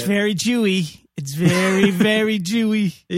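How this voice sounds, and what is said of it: Put-on Jewish accent. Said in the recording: “that Jewish accent? You're not supposed to do it. ... when you go very Jewy, when you throw on a little Fran Drescher there”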